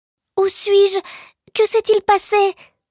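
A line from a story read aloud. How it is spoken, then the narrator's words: Panicked cry. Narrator (French): s'écrie-t-il affolé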